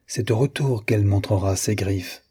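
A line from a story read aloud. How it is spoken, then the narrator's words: Murmuring. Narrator (French): murmura-t-il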